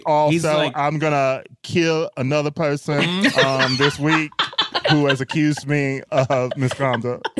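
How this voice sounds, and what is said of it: Kevin Spacey impression, Southern accent. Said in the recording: “That was so Kevin Spacey, though. ... I'm just doing my Southern accent.”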